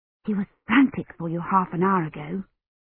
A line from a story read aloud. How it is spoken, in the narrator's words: she whispered